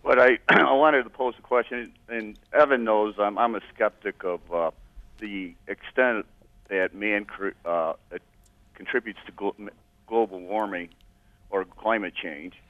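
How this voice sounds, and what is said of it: Slightly hoarse voice. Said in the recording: “My voice is a little hoarse”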